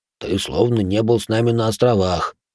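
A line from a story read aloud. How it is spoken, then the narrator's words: Muttered. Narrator (Russian): Муру буркнул из-за спины Иоши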